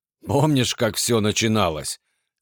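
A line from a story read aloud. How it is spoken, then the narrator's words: Hoarse laugh. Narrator (Russian): Хрипло рассмеялся Артем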